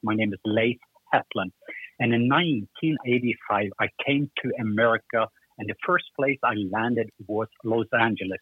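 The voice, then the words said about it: Norwegian accent. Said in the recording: “I am from the country of Norway, and even my name and my accent pretty much say that.”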